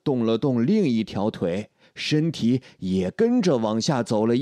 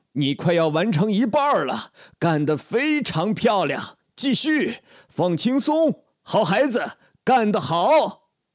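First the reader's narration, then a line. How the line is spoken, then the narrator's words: Shouting. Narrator (Chinese): 杰克继续向我喊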